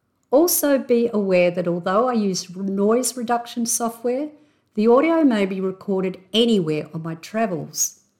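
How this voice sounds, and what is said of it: Australian accent. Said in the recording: “my intrinsically Aussie accent.”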